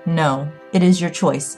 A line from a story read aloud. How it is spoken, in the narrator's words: Miss Donaldson said, her voice firm